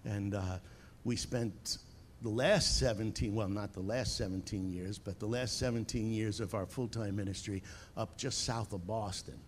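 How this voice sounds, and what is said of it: Long Island New York accent. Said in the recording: “As you can probably tell by my accent, I'm from Long Island, New York.”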